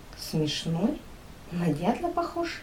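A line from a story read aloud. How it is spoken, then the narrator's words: Whisper. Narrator (Russian): шепнула Настя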